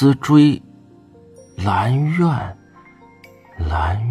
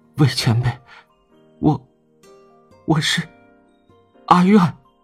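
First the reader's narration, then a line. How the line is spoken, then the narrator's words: Trembling voice. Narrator (Chinese): 蓝思追声音也在发抖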